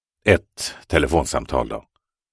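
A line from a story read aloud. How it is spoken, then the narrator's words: Muttered. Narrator (Swedish): muttrade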